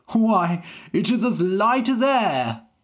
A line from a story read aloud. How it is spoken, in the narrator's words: the king cried